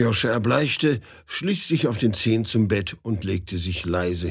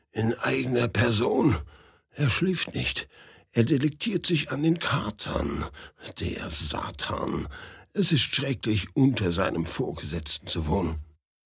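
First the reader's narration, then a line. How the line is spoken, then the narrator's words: Whispered. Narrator (German): flüsterte Aljoscha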